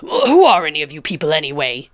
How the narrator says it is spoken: he spat

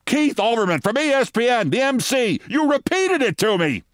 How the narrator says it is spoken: Fran Ryder screamed

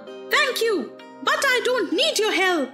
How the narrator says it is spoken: yelled

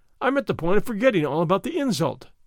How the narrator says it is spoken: he exclaimed

